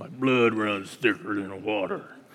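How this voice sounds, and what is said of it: Imitates another person's voice. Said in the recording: “my best Sam Elliott impersonation”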